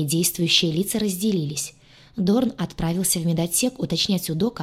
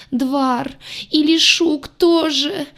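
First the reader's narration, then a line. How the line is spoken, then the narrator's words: Bitter wailing woman. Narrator (Russian): горько взвыла рыжая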